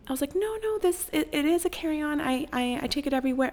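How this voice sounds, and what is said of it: Polite customer-service voice. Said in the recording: “my like customer service ho voice ... in my little ho customer service voice”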